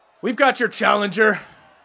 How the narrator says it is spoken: Skullis shouts out

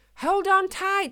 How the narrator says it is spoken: shouted Eddie in fear as his sleigh began picking up speed

